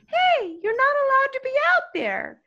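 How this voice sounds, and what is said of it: High-pitched Israeli-accented kid voice. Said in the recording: “an Israeli accent ... I'm just going to talk in a higher voice because this kid had a very high voice ... a Muppet”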